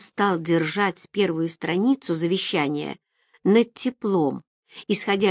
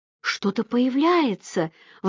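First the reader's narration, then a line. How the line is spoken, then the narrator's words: Exclaiming. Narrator (Russian): воскликнула Роберта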